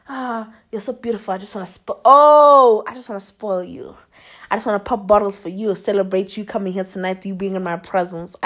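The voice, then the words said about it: Put-on accent for a flirting man. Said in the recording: “he didn't really sound like this, but you know, an accent always makes things fun”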